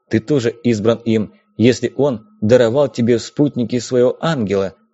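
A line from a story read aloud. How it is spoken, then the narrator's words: Plain. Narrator (Russian): сказал Феодор Зиху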